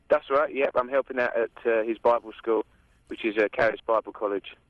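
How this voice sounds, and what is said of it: English accent. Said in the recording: “You can probably guess by my accent. ... I'm from England”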